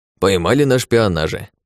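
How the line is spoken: Gnome's chuckle. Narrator (Russian): хохотнул гном

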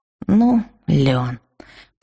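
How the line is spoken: Through clenched teeth. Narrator (Russian): процедила я сквозь зубы

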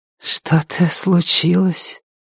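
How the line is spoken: Whisper in ear. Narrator (Russian): прошептала мне Пэтси на ухо

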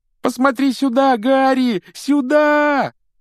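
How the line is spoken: Desperate yell. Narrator (Russian): отчаянно завопил Колин

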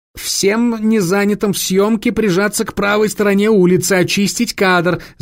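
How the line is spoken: Assistants shouting. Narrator (Russian): закричали ассистенты

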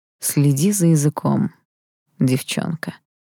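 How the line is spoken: Muffled, low voice. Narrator (Russian): глухо сказал он

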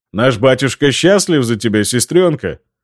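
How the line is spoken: Chuckling. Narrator (Russian): Хохотнул Эмиль и добавил

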